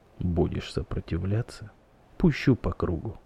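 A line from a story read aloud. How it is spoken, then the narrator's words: Hoarse whisper in ear. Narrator (Russian): хрипло шепнув на ушко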